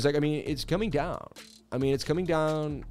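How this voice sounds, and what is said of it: Low-energy Mitch Ray impression. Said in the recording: “my Mitch Ray impression ... he's lost all his energy now. He's not fun to watch as much as he used to be.”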